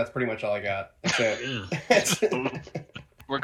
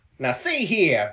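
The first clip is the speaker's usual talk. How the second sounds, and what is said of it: Put-on 1920s Transatlantic accent. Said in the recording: “the speakeasy accent. I can't do 1920s... Transatlantic.”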